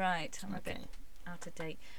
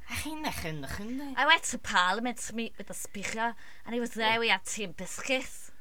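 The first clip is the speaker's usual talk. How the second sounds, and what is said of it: Put-on Liverpudlian accent. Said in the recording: “Liverpudlian ... I love this accent”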